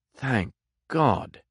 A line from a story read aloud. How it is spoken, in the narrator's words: murmured Sedley, emboldened